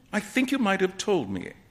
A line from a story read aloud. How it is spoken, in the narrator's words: Alan said, sulkily